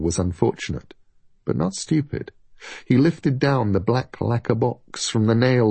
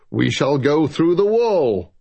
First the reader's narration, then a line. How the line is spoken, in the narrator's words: boomed Luthius Lynn, decisively